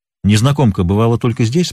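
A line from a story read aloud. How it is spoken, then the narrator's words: Plain. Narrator (Russian): спросил он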